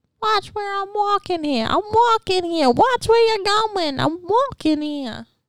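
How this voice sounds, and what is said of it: Put-on New York accent. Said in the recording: “Have New York accent and everything.”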